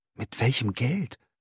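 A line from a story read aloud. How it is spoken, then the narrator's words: Panting. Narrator (German): keuchte er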